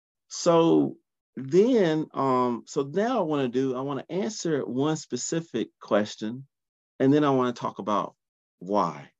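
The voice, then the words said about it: Groggy morning voice. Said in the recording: “my voice is groggy, but I'm up. It's probably 6 a.m. here on the East Coast, so sorry if my voice is groggy”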